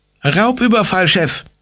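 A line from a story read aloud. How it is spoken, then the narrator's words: Calling out. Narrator (German): ruft ihm Pommes entgegen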